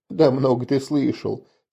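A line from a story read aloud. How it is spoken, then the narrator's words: Quiet arguing. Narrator (Russian): тихо спорил с ним Чекир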